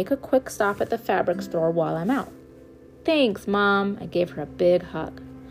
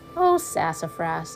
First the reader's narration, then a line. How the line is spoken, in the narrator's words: I sighed